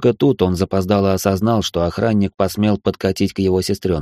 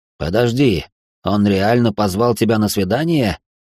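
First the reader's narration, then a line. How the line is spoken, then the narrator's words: Growl. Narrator (Russian): прорычал Алекс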